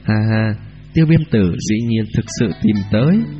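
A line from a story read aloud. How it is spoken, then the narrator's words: Trembling cry. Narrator (Vietnamese): Tiêu Viêm run rẩy thanh âm hô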